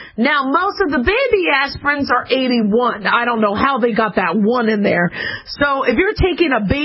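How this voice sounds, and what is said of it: Usual voice. Nothing is said of it.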